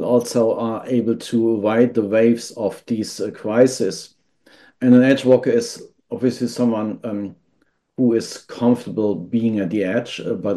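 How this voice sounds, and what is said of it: Slight German accent. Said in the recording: “my accent is slightly German ... people confuse me with the Australian accent, but it's indeed German”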